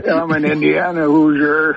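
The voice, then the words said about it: Dark, screechy Wes Reynolds impression. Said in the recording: “Wes Reynolds impersonation ... give you like a dark, screechy voice. Here is Wes.”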